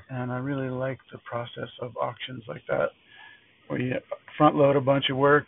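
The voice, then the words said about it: Tired-sounding voice. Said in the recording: “hear in my voice, I'm pretty tired”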